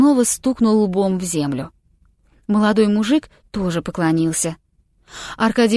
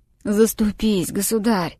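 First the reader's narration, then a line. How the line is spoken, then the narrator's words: Hoarse old man's voice. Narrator (Russian): Старик сиплым голосом произнес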